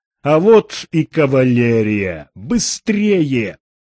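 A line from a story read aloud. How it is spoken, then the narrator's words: Shouting. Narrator (Russian): Сэм прокричал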